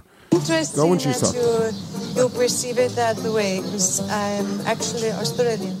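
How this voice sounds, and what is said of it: Eastern European-sounding accent. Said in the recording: “she doesn't speak English as her first language ... her do an impression of an Eastern European accent.”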